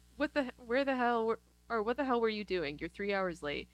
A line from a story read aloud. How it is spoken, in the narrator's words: Conan O'Brien yells